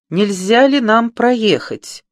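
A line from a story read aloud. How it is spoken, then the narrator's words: Loud question. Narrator (Russian): громко спросила Сильви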